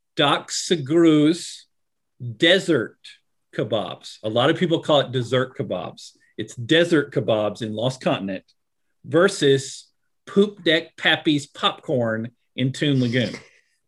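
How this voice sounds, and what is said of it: Southern US accent. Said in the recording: “with a Southern U.S. accent, it's far worse”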